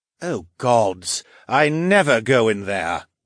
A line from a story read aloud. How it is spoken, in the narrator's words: Galloway groaned